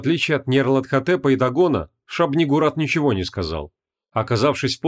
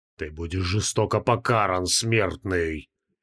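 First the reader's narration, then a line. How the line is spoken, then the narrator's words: Hissing from a staff. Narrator (Russian): прошипел из посоха Дагон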